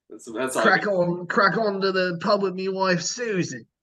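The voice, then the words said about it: Put-on English accent. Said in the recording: “an English accent ... You can start out solid, and then like a couple words later, it's just”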